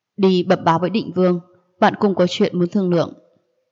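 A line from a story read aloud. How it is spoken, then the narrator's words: Restrained anger. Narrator (Vietnamese): trên mặt thoáng qua vẻ tức giận, lại như cũ nhịn xuống nói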